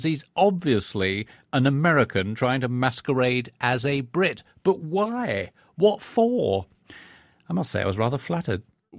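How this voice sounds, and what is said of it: British accent with American slips. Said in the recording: “fake British accent ... my accent does wander a little bit because sometimes most of the people I speak to during the day are indeed American”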